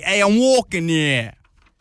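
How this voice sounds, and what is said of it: Put-on New Jersey accent. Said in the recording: “There's a New Jersey accent.”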